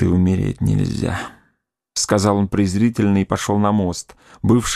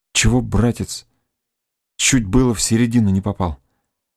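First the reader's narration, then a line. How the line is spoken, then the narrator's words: Trembling voice. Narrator (Russian): отвечал дрожащим голосом Александр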